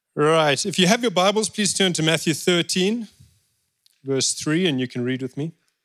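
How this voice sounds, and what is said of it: Noticeable accent. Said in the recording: “help everybody understand my accent.”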